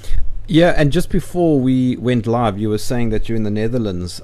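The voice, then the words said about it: Accent with faint Dutch tinge. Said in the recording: “my accent is probably something similar to what you hear there... There's a little faint Dutchness, you can hear it”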